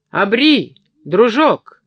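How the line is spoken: Shouted. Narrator (Russian): крикнула она спешившему мимо капралу

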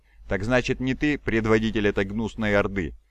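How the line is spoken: Indifferent laugh. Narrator (Russian): Ксенос равнодушно рассмеялся

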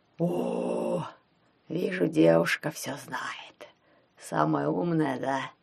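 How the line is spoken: Hoarse rasp, dead man. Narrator (Russian): прохрипел мертвяк

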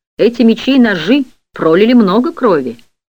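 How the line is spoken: Surprised exclamation. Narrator (Russian): Один огромный техасец с удивлением воскликнул

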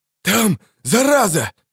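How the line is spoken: Breathless exhale. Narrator (Russian): выдохнул Калеб

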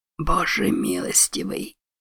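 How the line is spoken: Male whisper. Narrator (Russian): прошептал он

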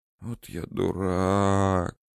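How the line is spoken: Whisper. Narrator (Russian): прошептал Данияр

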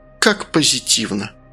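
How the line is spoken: Muttering. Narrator (Russian): пробормотала Василиса

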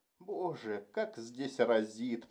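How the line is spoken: Inward groan. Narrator (Russian): простонал он в душе

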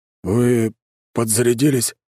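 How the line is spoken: Uncertain question. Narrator (Russian): спрашивает он неуверенно

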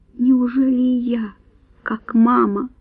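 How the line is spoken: Whisper. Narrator (Russian): прошептала она

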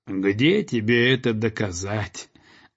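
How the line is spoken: Mocking goose leader. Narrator (Russian): насмешливо молвила гусыня-предводительница

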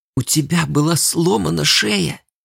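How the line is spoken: Girl almost whispering. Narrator (Russian): Последние слова девушка произнесла почти шепотом

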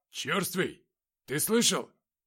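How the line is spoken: Much louder shout. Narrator (Russian): Гораздо громче крикнул тот, что заговорил до этого первым

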